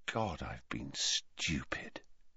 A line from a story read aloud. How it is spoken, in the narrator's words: he said quietly